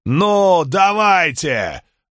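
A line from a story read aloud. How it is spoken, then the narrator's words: Yelling. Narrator (Russian): заорал он на легионеров следующей шеренги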